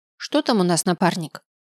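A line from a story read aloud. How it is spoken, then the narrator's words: Jaunty question. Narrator (Russian): Лихо спросила она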